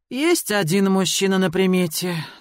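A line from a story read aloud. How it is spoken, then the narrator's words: Sigh. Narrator (Russian): вздохнула она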